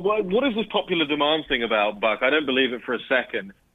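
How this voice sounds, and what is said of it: Speaks with a noticeable accent. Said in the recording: “I just love ... accent.”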